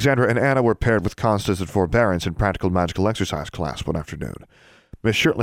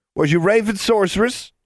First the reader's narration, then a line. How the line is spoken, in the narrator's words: taunted Benjamin